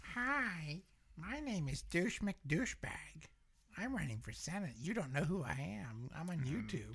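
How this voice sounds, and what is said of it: Goofy voice imitating another person. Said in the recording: “he didn't have a southern accent though. He was very goofy.”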